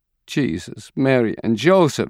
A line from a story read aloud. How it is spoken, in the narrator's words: she cries